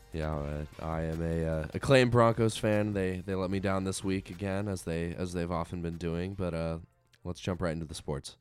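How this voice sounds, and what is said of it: Nasal, congested voice. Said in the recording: “If you can't hear in my voice, I'm a bit nasally. I was fighting a cold all week.”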